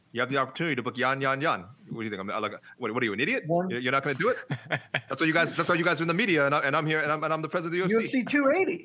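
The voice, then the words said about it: Bad imitation of another person's voice. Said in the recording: “your Dana impression. That was so bad.”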